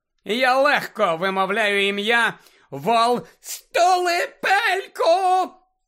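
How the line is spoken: Shrieked. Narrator (Ukrainian): заверещала Белатриса Лестрандж

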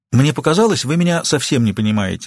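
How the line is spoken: Plain. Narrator (Russian): сказала Кит Рэндом

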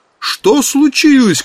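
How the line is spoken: Shout. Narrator (Russian): крикнул Эмори

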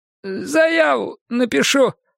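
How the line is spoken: Hopeless squeak. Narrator (Russian): пискнул снова Романов, но уже безнадежно

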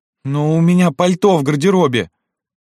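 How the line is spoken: Sudden plaintive. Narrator (Russian): она вдруг жалобно сказала

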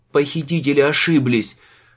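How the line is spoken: Throat-straining scream. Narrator (Russian): закричал Лючано, рискуя порвать связки

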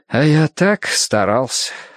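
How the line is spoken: Flat sigh. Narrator (Russian): вздохнул Эштон, не меняя тона

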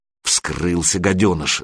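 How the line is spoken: Spiteful snap. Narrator (Russian): злобно бросил второй

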